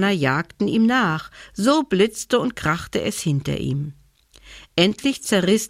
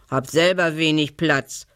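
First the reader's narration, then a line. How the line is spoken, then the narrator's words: Pig grunting. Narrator (German): grunzte das Schwein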